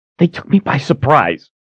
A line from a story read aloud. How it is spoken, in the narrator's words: she snapped